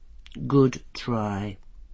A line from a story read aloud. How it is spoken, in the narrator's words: murmured Angua